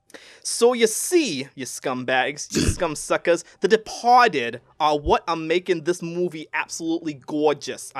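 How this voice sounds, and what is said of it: Bad put-on Boston accent. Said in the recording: “I'm gonna stick to my Boston accent that sucks”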